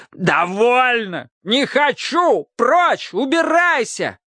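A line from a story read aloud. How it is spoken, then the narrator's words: Shouting at full voice. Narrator (Russian): кричал во весь голос Автоматей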